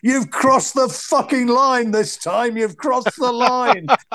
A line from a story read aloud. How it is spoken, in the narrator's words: Klitschko, who winds up in the drink, bellowing at him